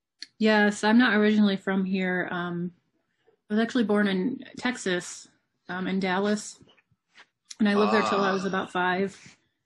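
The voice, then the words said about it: Strong Southern-mixed American accent. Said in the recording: “You've got a very strong accent ... So it's your a mixture accent of like would be ... Southern,”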